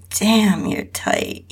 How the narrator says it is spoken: he groaned

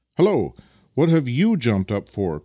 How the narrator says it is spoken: cried Vasily, suddenly, clearly enjoying the fact that an unauthorized passenger was trying to perch himself upon the runners behind

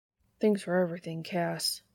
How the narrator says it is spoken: Sam mutters against his shoulder

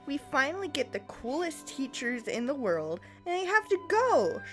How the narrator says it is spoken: Sheree exclaimed

